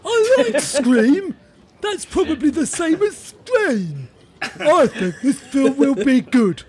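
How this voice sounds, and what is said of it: Silly stupid-sounding voice. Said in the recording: “in your stupid voice.”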